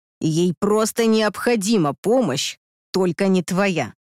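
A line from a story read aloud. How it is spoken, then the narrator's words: Hissing. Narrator (Russian): прошипел Андрей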